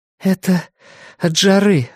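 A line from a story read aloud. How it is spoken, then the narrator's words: Breathy exhale. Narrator (Russian): выдохнула она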